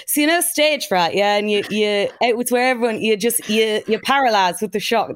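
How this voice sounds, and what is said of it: Imitates another person's voice, put-on accent. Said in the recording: “That's not his accent, but anyway. ... I'm loving the accent.”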